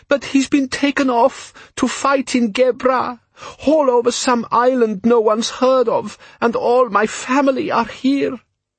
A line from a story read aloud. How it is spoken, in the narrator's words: she sobbed